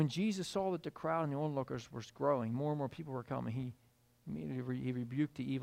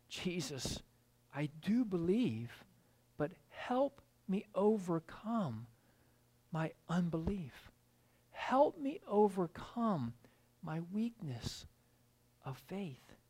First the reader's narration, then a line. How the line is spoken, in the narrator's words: this father … he instantly cried out